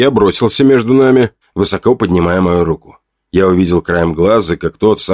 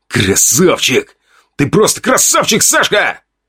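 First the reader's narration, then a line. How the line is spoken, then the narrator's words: Hissed into ear. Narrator (Russian): Он шипел прямо в ухо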